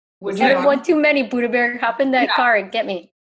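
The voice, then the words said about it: Put-on upper Wisconsin accent. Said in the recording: “that was a very Wisconsin accent ... like an upper Wisconsin”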